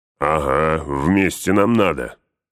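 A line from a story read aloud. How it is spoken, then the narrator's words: Growl. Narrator (Russian): прорычал Углук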